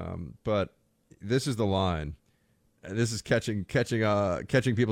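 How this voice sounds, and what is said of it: Usual voice. Nothing is said of it.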